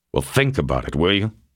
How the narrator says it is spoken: he said angrily

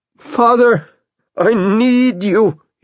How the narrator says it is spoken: he cries out

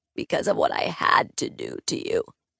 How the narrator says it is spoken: they croaked

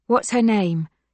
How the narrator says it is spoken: Yelena asks calmly

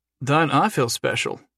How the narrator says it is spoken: Jason said, flatly

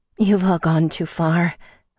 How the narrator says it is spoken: I breathed out, shocked

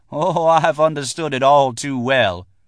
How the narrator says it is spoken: She laughed and said

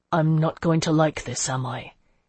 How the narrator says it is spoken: he said quietly

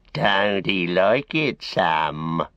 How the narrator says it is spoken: he sneered

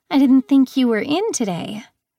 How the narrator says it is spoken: she said nervously

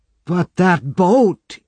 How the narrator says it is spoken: he cried

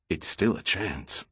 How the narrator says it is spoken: Roman said quietly

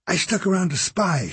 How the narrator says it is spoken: she whispered

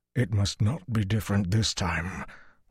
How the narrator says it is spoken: Luce Theron panted

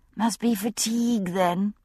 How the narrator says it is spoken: I said dreamily

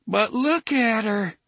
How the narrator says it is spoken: DePape almost moaned

